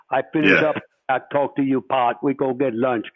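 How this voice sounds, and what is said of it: Imitated real thick accent. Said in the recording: “he had a real, real thick accent.”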